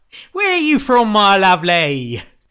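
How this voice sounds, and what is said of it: Put-on Cockney London accent. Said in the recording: “Why does this Kentish fisherwoman sound like she's from Cockney London?”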